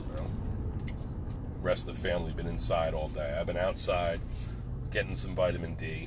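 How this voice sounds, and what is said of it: Slightly nasal voice. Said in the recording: “I sound a little nasal right now. That's like the remainder of the COVID cooties.”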